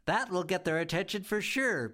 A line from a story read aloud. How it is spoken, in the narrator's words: Bee giggled